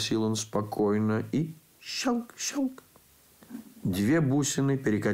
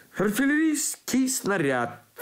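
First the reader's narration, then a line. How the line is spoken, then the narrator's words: Cheerful. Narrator (Russian): сказал я бодро, в ликующей тишине класса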